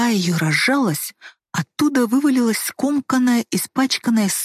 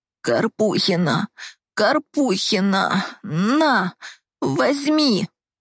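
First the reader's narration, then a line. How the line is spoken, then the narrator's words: Hoarse rasp. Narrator (Russian): прохрипела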